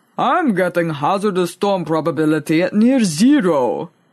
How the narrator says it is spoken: he rumbled in reply

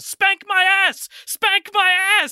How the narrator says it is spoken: Jonathan yells

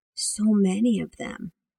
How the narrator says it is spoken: Amanda whispered

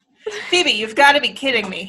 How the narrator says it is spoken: he laughed

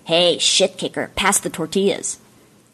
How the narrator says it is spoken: her brother, Hillary, sneered and said

